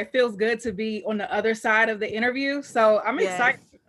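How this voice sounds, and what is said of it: Maryland accent. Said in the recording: “this girl got a Maryland accent... I automatically knew she was from the DMV”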